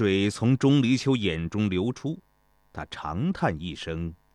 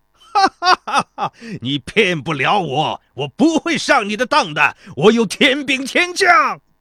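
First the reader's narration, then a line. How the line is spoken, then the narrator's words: Wild laughter. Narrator (Chinese): 孙膑脸上划过一丝不易觉察的犹豫，然后他狂笑道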